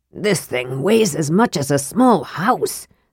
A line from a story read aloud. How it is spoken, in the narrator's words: Sturm gasped